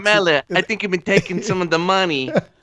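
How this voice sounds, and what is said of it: Poor impression of a mob character. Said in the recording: “that is a terrible impression of Tony Soprano. ... That's a terrible impression.”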